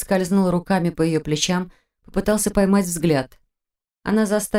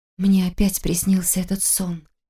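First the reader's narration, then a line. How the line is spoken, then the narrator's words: Hoarse mutter. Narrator (Russian): хрипло пробормотала Таня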